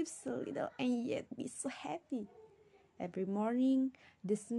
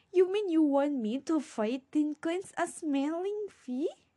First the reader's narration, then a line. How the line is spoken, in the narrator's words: laughed the neighbor